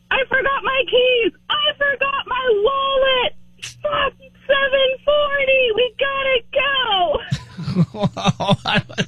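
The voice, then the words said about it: High-pitched impression of her husband. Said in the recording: “I'm going to do my husband. ... This is him when he's getting ready in the morning. ... you did his voice as, like, a high voice like yours”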